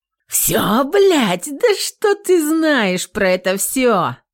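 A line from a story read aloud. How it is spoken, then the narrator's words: Contemptuous, through teeth. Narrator (Russian): Процедила с бесконечным презрением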